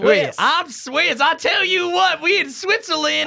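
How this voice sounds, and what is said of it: Put-on Swiss accent. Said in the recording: “that was a great Swiss accent right there”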